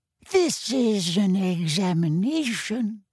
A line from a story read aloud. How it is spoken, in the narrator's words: said Professor Tofty in a scandalized voice